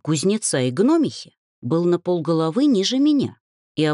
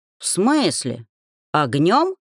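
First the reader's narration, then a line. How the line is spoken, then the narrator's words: Astonished deep voice. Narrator (Russian): изумленно пробасил Велька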